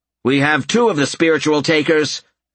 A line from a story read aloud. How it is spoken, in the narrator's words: Albert called out